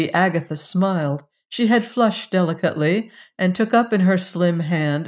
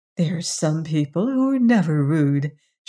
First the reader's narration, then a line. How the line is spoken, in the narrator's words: she sweetly said